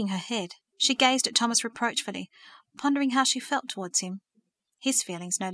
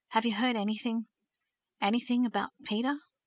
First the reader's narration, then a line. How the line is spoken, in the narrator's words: Thomas asked anxiously